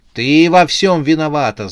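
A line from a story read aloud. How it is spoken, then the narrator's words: Young man shouting. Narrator (Russian): закричал юноша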